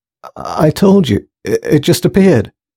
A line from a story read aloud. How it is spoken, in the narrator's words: stuttered Thomas